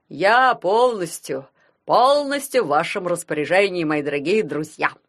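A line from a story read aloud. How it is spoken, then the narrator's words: Loud, into phone. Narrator (Russian): громко сказал он в трубку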